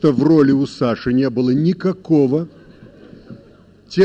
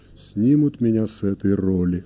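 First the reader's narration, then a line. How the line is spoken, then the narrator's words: Quiet. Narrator (Russian): тихо сказал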